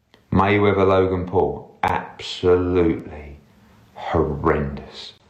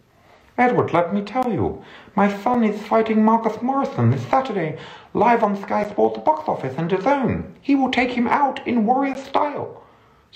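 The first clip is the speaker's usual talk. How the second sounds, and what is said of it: Imitates another person's voice. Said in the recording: “Do an impression. ... the great Chris Eubank Sr.”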